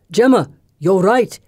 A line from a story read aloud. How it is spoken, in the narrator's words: he shouts